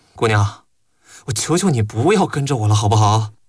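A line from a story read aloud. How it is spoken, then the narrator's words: Sighing question. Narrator (Chinese): 李少爷终于还是叹了一口气 问道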